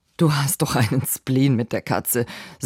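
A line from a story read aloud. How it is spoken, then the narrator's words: Forced laugh while speaking. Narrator (German): sagte er und versuchte zu lachen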